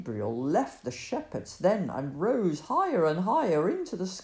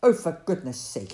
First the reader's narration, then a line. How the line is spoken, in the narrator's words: he grumbled